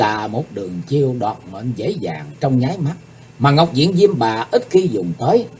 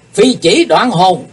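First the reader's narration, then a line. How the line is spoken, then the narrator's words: Thunderous shout. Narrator (Vietnamese): Kiếm khách Phạm Thiên Hòa bỗng quát to tợ sấm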